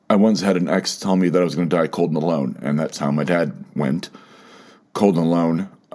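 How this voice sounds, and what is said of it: Emotional, wavering voice. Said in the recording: “you can probably hear it a little bit in my voice. I'm getting emotional.”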